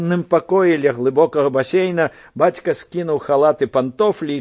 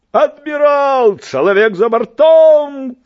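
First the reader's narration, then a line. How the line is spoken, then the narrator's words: Shouting. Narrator (Belarusian): крыкнуў бацька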